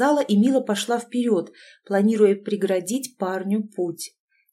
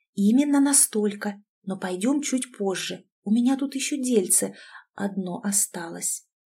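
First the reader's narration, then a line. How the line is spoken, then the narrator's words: Smirking whisper in ear. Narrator (Russian): Ирина усмехнулась и прошептала на ухо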